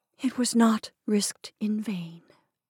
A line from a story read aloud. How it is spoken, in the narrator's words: amid the storm, she whispered softly